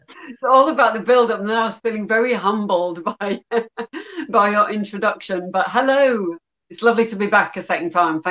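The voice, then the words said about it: English Yorkshire accent. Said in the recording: “you have a bit of an accent ... I am from England. I'm originally from Yorkshire in the north of England”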